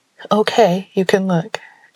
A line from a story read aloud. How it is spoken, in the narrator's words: Jupiter said